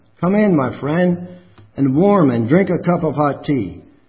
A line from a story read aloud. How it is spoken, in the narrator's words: he called out to him